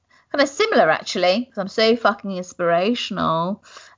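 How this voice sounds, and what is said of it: Sarcastic tone. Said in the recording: “That was sarcastic.”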